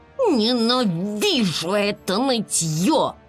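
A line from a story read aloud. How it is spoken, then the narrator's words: Angry near-growl. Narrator (Russian): от гнева, и она почти прорычала в ответ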